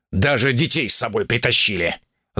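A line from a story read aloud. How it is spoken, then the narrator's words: Angry hiss. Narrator (Russian): Злобно прошипел Шао Цзин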